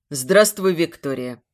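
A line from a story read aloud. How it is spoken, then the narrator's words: Stern. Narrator (Russian): строго говорит Тихомиров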